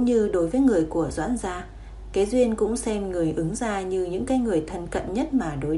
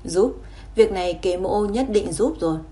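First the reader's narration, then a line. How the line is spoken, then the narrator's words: Sighing, firm. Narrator (Vietnamese): Kế Duyên thở dài một hơi, giọng kiên định trả lời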